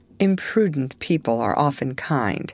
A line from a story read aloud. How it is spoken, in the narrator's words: said Mrs